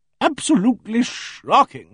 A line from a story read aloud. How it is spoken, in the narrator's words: she boomed